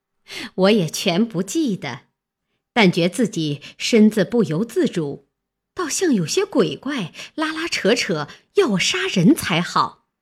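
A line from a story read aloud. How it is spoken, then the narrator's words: Laughing. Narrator (Chinese): 凤姐儿笑道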